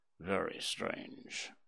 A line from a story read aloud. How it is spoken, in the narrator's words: muttered Holmes